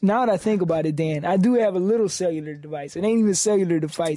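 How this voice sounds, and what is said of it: New York accent, slow drawl. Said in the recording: “Why do you have a New York accent ... Your co-host sounds like he's from New York ... I've been told I have a Latin draw. I've got a slow draw. New York accent.”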